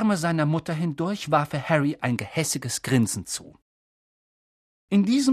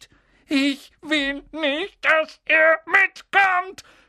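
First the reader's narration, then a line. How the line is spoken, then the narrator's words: Shouting amid fake sobs. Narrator (German): schrie Dudley zwischen den markerschütternden falschen Schluchzern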